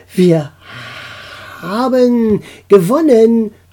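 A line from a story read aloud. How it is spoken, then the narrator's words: Triumphant shout. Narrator (German): rief Sulu triumphierend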